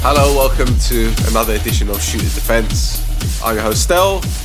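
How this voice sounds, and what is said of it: Unwell, sick-sounding voice. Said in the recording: “as you can tell by my voice, ... I'm unwell”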